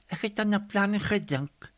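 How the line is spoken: Whisper. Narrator (Afrikaans): fluister Dinfa

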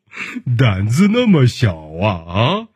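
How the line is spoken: Hearty laughter. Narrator (Chinese): 熊爸爸是哈哈大笑

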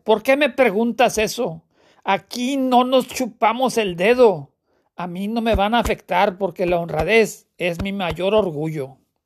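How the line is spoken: Indignant, furious retort. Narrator (Spanish): le espeta con indignación y rabia

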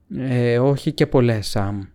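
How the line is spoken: Sighed. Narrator (Greek): αναστέναξε ο Φρόντο

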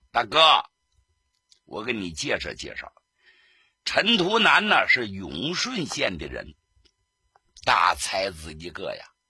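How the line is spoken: Smiling. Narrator (Chinese): 贺锦斋一笑

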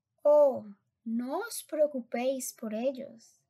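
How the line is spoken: Exclaimed. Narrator (Spanish): exclamó el señor Wonka

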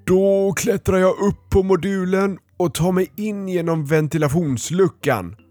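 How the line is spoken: Wolf roaring. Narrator (Swedish): vrålade vargen

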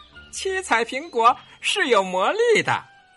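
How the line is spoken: Laughing. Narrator (Chinese): 跳跳猴笑着说

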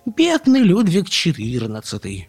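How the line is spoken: Exclaimed. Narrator (Russian): воскликнула Карлсон

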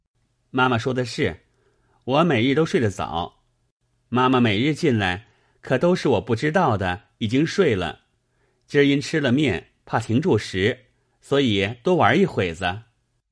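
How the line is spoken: Hurried, laughing. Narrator (Chinese): 宝玉忙笑道

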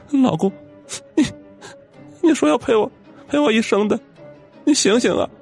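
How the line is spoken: Choked sobbing. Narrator (Chinese): 陈蕊大哭不止，嘴里哽咽的道

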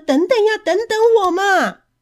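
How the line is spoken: Anxious child shouting loudly. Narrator (Chinese): 跛脚的孩子急着大声的叫着

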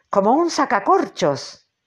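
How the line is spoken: Shouting. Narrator (Spanish): gritó Ahab

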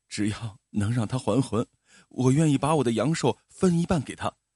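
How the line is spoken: Man, crying. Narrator (Chinese): 男人边哭边说

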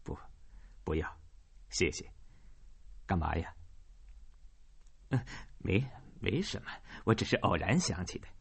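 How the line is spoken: Wry, bitter smile. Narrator (Chinese): 凯斯特苦笑了一下，说

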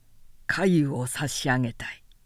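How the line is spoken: Plain. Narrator (Japanese): と言って

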